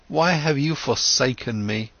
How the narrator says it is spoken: Sadly he asked

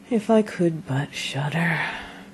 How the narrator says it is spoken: said quite sadly

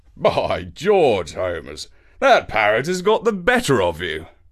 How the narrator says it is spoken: Watson laughed, saying

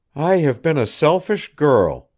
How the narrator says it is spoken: Janet murmured

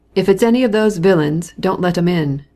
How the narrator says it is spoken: Petritsky shouting

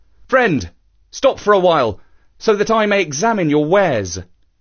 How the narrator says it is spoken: he called out

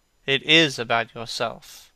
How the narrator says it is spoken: answered Hallward in his grave, deep voice

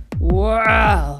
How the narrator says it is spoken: growled Anubis

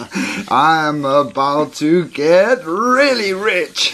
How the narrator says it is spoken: he chuckled

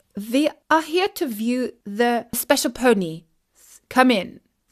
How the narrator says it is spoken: said the butler

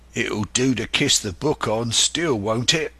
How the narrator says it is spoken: growled Dick, who was evidently uneasy at the curse he had brought upon himself

